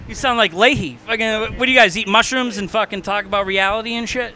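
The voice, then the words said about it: Boston accent. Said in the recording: “This guy in his fucking Boston accent.”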